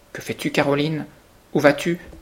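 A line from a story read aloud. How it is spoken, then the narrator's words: Children crying out. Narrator (French): s'écrièrent les enfants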